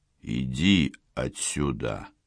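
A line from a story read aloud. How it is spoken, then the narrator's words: Slow speech. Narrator (Russian): медленно сказал Спиридон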